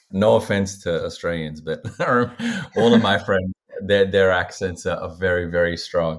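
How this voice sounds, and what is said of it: Mild, ambiguous Australian accent. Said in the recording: “I also tend to have an accent, actually, that is a little bit ambiguous because some people tend to ask me if I'm English. Some ask me if I'm South African. And it's not a very thick, strong Australian accent.”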